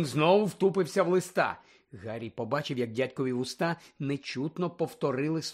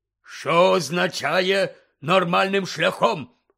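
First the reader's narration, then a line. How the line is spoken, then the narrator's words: Barked. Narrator (Ukrainian): гаркнув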